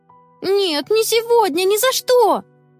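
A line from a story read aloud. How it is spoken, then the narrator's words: Discordant group shouting. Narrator (Russian): в разнобой закричали ребята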